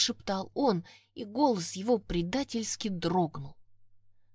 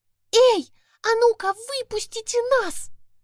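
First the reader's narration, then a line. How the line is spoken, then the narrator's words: Ringing shout. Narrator (Russian): Звонко закричала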